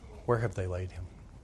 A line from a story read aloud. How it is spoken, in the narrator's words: Quietly, asked